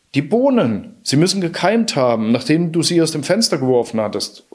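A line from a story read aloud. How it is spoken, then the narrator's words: Triumphant shout. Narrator (German): rief Jack triumphierend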